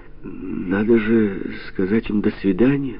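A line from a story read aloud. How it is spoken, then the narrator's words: Timid reminder. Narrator (Russian): Робко напомнил Павлик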